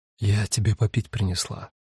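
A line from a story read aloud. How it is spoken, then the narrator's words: Delicate female whisper. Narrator (Russian): женского голоса, произнесшего деликатным шепотом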